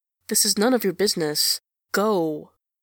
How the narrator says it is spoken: says Enjolras coldly

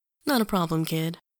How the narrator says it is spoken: she says cheerfully

